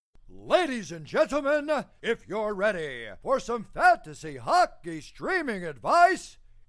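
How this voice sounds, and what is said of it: Dramatic announcer voice. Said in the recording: “announcer voice”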